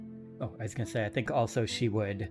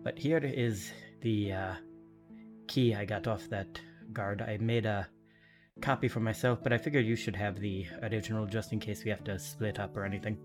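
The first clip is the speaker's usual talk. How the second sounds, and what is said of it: Put-on unidentified character accent. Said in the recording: “I have no idea what this accent is”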